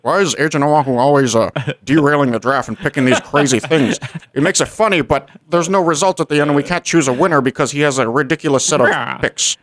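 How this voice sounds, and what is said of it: Imitates another person's voice. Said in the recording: “Agatha's a 50s ... gangster. ... That was a perfect impression of Jim.”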